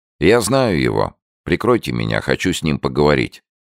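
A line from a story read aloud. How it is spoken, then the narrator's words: Quick. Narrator (Russian): Рощин быстро сказал мне и Витасу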